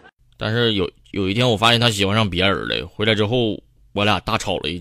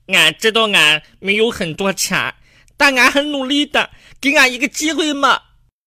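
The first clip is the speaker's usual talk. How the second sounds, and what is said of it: Imitating cartoon character Xiong Er. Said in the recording (Chinese): “又学着熊二的声音说道”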